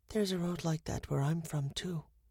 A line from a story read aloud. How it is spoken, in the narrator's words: she whispered